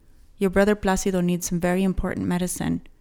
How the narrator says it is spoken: he said quickly

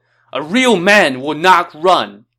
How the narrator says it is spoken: Sun Ce shouted

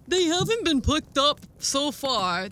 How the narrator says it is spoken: the approaching policeman grumbled

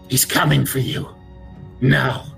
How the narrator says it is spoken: she says now in a hoarse, quavering voice

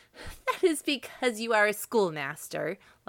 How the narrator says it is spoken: laughed Mrs

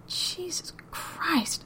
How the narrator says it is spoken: Daryl breathed

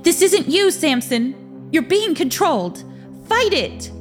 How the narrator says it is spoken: Ingrid shouted

